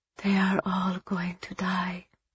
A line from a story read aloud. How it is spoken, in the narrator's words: Eva whispered